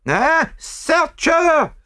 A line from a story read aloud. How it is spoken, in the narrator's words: screamed the other